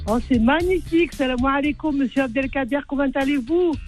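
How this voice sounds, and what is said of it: Speaks with a noticeable accent. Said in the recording (French): “on adore ton accent.”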